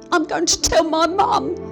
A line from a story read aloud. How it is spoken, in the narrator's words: Alex shouts at him